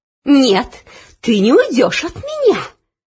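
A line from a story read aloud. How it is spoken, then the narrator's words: Hissing. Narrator (Russian): прошипела Анидак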